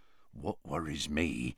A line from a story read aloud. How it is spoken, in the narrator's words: said Hagrid, lowering his voice